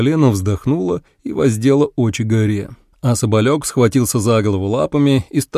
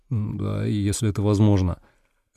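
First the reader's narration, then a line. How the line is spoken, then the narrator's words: Confused mutter. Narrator (Russian): Я растерянно пробормотал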